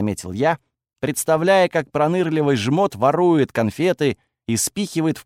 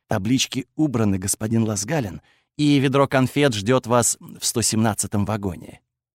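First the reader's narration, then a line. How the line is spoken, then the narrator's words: Whispered. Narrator (Russian): проводник ... прошептал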